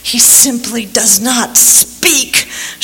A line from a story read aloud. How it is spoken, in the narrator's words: She hissed at Dolores